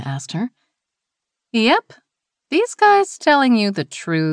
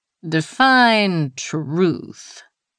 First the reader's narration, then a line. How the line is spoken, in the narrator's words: Jackson drawled